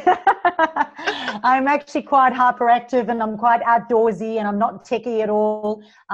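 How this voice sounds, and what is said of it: Mixed South African accent. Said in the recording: “you'll hear a mixture of my accent because I am originally from South Africa”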